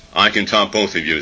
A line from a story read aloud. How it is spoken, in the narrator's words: said the third